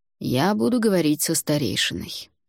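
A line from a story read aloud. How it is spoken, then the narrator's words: Calm reply. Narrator (Russian): спокойно ответил Альвар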